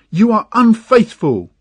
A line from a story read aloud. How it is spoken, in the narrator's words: the girl screamed